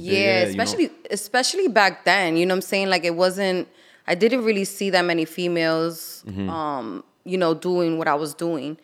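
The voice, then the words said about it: New York accent. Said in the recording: “Can you not hear my accent? ... Yeah, you're from New York. ... I'm straight from New York.”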